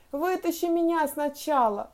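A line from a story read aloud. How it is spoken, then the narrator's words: Pleading. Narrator (Russian): взмолился Вовка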